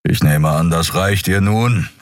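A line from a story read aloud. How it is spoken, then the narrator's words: Impatient growl. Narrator (German): knurrte Keru ungeduldig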